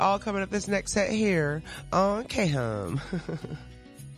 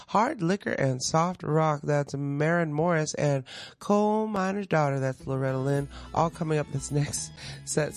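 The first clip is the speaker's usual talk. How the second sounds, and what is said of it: Slight country twang. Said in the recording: “Sorry, got a little twang.”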